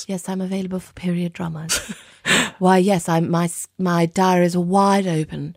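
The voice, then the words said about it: Put-on British accent. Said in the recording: “doing a British accent ... Are you available for period dramas?”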